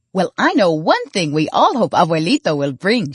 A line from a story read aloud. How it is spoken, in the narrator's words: said cheerfully